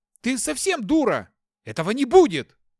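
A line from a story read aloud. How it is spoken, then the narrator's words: Shouting. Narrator (Russian): заорал я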